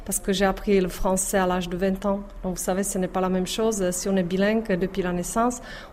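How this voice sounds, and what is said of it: Strong Czech accent in French. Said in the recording (French): “c'est mon accent... pourquoi autant d'accent”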